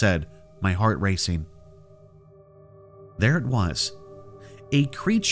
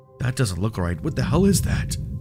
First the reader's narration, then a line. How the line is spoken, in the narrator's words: Mike said, his voice shaky